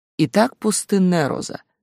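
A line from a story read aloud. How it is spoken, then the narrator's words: Lazy lecturing teacher. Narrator (Russian): лениво читал учитель Тан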